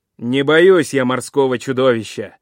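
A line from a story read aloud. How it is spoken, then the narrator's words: Fearless shout. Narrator (Russian): крикнул бесстрашный Персей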